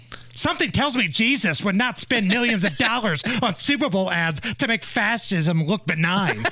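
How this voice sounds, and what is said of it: Imitates another person's voice. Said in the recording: “I will say this just like I think she says it ... That's the best AOC impression I can do ... Very good.”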